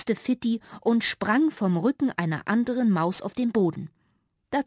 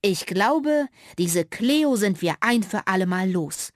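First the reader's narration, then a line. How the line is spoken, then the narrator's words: Plain, father. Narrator (German): sagte Fittis Vater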